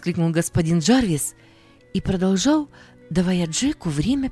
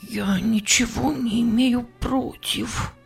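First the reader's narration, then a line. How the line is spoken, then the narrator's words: Hoarse whisper. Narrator (Russian): Джек хрипло прошептав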